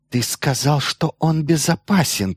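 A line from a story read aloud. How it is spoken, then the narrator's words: Hissed. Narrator (Russian): прошипела Кавилла Грегору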